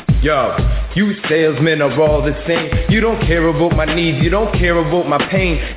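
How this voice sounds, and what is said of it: Slight Canadian accent, rapping. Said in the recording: “a Sandler rap with a little bit of a Canadian accent”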